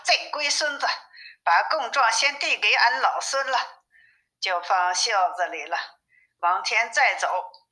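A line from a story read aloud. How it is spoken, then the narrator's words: Laughing. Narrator (Chinese): 悟空笑着说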